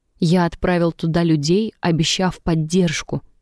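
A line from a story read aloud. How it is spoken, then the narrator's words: Plain. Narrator (Russian): говорит Джек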